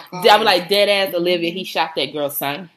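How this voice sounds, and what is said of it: Put-on New York accent. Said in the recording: “I gotta work on my New York accent.”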